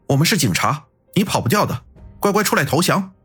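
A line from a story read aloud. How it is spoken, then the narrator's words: Shouting. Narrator (Chinese): 安然喊道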